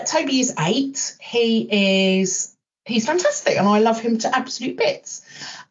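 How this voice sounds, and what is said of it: Smiling, warm voice. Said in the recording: “you can tell from my voice I'm smiling when I talk about him”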